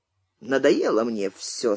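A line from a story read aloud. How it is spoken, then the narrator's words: Quiet. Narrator (Russian): сказал тихо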